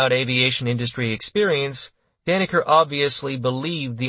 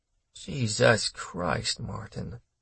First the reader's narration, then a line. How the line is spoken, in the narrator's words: he murmured